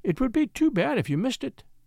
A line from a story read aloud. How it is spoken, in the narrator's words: she said sweetly